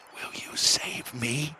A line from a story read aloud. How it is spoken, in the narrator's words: whispered the boy with a sob